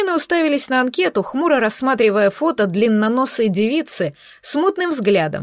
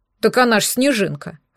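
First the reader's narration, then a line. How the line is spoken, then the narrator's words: Snorting. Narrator (Russian): хмыкнул Егорка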